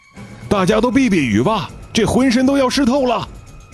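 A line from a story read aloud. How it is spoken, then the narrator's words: Loud shout. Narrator (Chinese): 副队长在私钻房里大喊着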